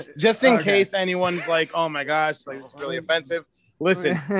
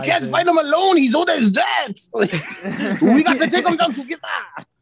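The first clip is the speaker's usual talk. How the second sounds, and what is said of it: Bad put-on French accent. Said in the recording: “I'm French, so I can get away with doing the bad accent.”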